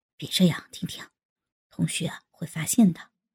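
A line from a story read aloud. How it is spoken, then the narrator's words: Startled, soft. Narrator (Chinese): 宋小艺一惊，轻声道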